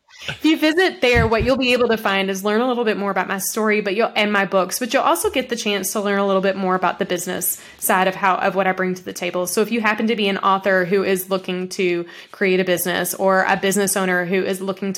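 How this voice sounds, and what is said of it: Country accent. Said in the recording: “my country accent makes F and S sound alike”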